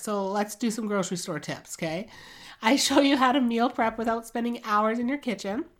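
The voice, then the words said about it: Rough, unwell-sounding voice. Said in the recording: “I can't tell if you can tell, but my voice is pretty bad. I've been really sick the last week.”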